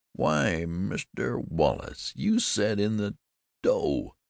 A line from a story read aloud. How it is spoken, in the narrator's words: exclaimed Frank in a queer, strangled voice